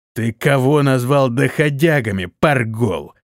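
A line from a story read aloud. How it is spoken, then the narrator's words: Hiss. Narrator (Russian): прошипел вожак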